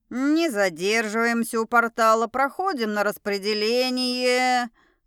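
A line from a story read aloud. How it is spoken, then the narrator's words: Nasal voice. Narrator (Russian): Гнусавый голос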